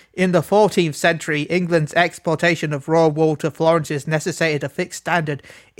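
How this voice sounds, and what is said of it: Put-on posh English accent. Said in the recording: “my most poshest accent or whatever. even though I can't do voice acting.”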